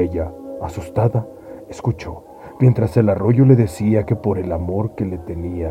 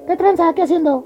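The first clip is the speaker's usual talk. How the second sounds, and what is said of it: Man's voice. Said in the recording (Spanish): “le habló con voz de hombre”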